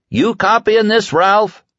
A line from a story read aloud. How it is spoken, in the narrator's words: Stu bellowed